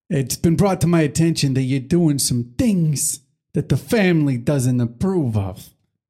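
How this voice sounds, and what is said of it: Mobster-style character voice. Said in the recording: “Mobster style, like Bowser.”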